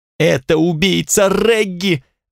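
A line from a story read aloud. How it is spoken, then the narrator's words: Ear-splitting shriek. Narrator (Russian): взвизгнула Эвелина так, что у меня заложило уши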